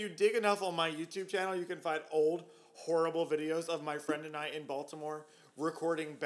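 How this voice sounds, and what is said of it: Usual voice. Nothing is said of it.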